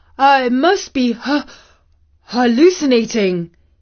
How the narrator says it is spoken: he panted

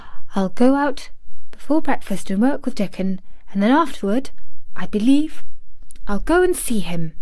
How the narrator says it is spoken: she murmured to herself

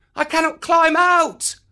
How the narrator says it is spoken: cried Mowgli

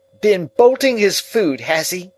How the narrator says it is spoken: cried

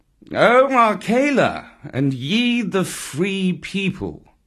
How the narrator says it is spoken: he purred

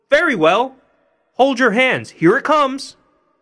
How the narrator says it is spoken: Tom called out as loud as he could

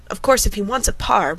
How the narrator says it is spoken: Red Murray said earnestly

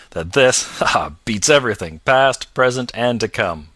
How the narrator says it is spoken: laughed Stryver with a vexed laugh

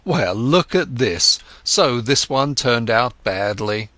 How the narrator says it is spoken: When he made losses, he laughed and said

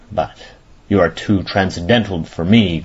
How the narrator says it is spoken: growled Ossipon with moody concern

